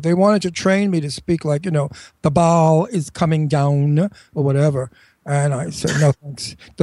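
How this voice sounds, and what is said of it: New York accent. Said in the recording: “I'm a native New Yorker, as you can hear, uh, ... my New York accent.”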